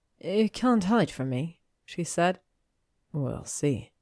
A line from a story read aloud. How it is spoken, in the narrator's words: he murmured